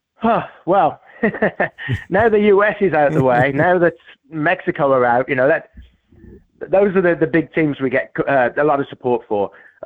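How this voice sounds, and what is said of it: Noticeable non-American accent. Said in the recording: “Obviously, we can hear your accent”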